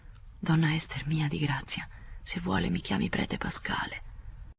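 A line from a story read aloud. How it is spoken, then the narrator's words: Faint close murmur. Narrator (Italian): Le mormorò sul viso con un filo di voce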